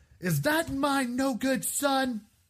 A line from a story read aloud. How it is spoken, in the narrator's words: your mother yell from the dining room